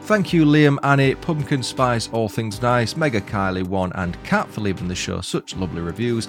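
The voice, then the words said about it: Speaker's own accent. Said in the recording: “loving the accent”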